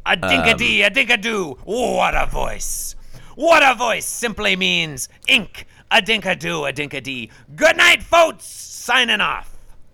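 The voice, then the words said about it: Throat-straining impression voice. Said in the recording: “it does hurt my voice ... my throat to do that voice ... that's a pretty good one”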